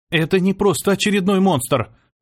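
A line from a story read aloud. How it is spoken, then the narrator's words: Hoarse rasp. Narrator (Russian): хрипела Ева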